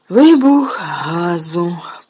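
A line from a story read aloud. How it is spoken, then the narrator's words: Hoarse, rasping. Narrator (Ukrainian): прохрипів Ерні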